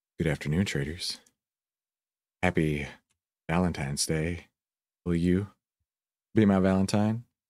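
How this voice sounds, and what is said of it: Sultry, seductive voice. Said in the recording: “put on my most sultry voice”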